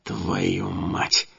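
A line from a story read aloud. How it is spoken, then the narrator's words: Hissed. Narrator (Russian): зашипел я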